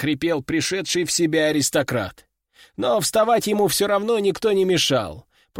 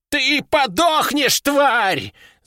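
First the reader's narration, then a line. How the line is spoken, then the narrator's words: Old man's wild yell. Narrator (Russian): завопил старик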